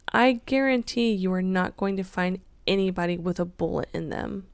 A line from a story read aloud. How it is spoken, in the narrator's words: Henderson laughed and replied